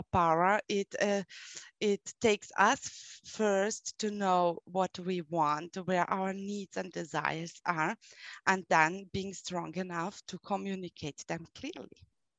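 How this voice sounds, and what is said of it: German accent. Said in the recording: “you have a German accent and you're from a German speaking country”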